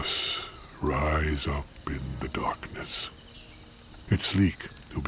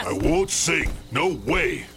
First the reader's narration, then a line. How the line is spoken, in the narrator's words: I growl as I feel my cheeks flush miserably